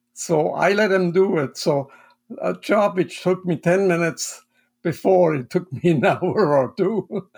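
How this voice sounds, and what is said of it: Swiss German accent. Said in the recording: “as people can hear on this, you have an accent. You are from Switzerland ... I'm from the German-speaking part of Switzerland.”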